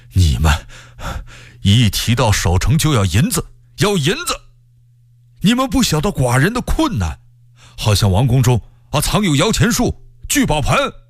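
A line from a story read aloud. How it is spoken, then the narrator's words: Breathless speech. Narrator (Chinese): 喘着气儿说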